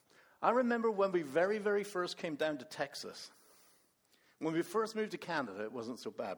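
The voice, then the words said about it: Speaker with a non-Texan accent. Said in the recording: “I have an accent.”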